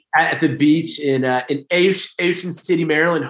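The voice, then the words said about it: Maryland Baltimore accent. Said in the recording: “my Maryland accent. That's my Baltimore, Ocean City.”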